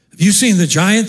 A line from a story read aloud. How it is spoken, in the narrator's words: the men asked